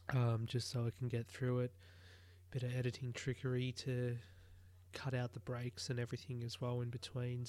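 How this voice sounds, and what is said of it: Sick-sounding, strained voice. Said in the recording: “under the weather yesterday, as you can probably tell by my voice ... today is a bit of an improvement”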